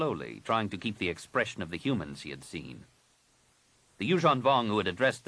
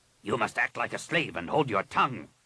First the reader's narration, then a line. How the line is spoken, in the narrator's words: Rapung snapped